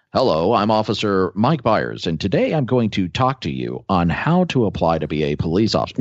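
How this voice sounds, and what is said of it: Stiff formal radio announcer voice. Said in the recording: “He did that really well. ... He does have a good radio voice.”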